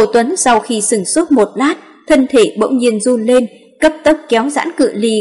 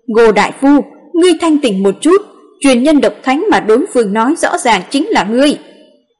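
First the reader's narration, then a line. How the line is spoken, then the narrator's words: Agitated loud shout. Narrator (Vietnamese): Bảo Bất Bình không thể chịu đựng được nữa, kích động hét lớn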